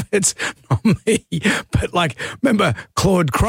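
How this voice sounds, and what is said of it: Usual voice. Nothing is said of it.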